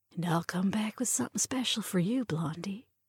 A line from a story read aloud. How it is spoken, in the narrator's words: she whispered